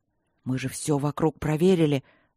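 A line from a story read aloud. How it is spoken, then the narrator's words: Trembling voice. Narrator (Russian): дрогнувшим голосом проговорил Макроуд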